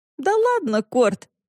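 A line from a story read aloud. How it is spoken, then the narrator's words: Laughing. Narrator (Russian): засмеялась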